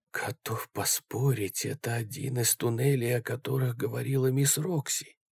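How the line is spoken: Whisper. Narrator (Russian): прошептал Джереми

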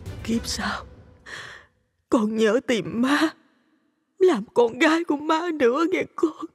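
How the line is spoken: Sobbing, tearful. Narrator (Vietnamese): Bà khuỵu xuống khóc nức nở, nói trong nước mắt

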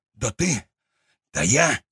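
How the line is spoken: Hissed. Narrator (Russian): прошипел тот

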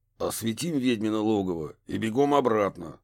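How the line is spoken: Grumbling. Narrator (Russian): пробурчал детектив

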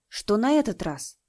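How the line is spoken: Frightened question. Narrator (Russian): испуганно спросил Лиюнь

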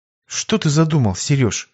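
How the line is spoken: Calm question. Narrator (Russian): уже спокойно поинтересовалась она

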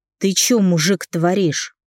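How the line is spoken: Menacing growl. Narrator (Russian): грозно прорычал я

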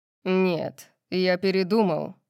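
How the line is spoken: Growled. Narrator (Russian): прорычал Сет

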